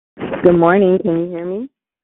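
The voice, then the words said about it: Muffled voice. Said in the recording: “you sound a little muffled”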